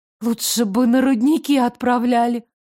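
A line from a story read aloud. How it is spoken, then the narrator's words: Breathed out. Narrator (Russian): выдохнула я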